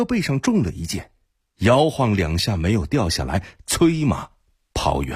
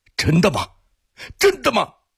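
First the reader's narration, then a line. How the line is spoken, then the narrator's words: Roaring. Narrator (Chinese): 阿里布哥吼道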